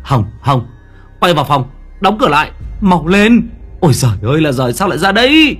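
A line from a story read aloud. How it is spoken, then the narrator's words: Shouting. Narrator (Vietnamese): Tôi hét lên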